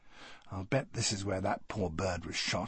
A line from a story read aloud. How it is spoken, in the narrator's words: I muttered to Charles in an undertone